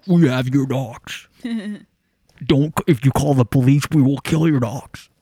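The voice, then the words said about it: Disguised voice-changer kidnapper voice. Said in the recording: “do you think she'll get a call from with a voice changer?”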